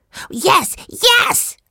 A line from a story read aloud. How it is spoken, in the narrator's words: Benny said excitedly